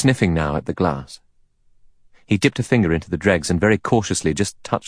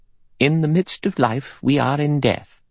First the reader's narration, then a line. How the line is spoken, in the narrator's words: Emily Brent said in a clear voice